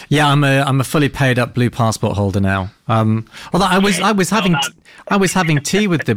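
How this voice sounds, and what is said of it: British accent. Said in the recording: “I noticed your British accent”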